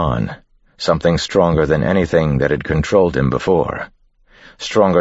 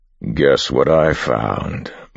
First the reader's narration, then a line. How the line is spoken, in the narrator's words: Marsh growled